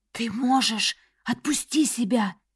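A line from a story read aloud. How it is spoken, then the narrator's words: Whisper, dark companion. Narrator (Russian): шепнул мой темный попутчик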